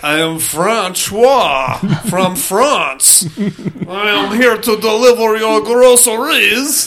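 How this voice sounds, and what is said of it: Fake French accent. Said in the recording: “American with a fake French accent”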